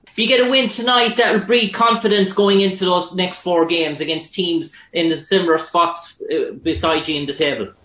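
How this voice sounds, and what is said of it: Irish accent. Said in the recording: “Ireland. ... I like your accent. I want to learn how to talk like that.”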